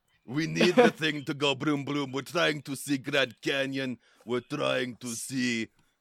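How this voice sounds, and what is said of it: Inconsistent, poorly done put-on accent. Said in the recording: “The accent changed again... I'm really bad at it.”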